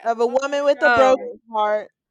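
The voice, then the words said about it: Yelling loudly. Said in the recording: “I think I'm yelling.”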